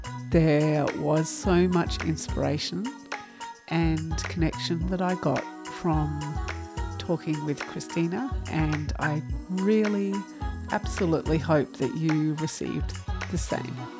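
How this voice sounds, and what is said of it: Australian accent. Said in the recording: “my Aussie accent doesn't always get its tongue around”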